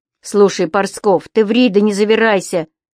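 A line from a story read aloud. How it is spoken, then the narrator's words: Stern interruption. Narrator (Russian): строго прервал Костыль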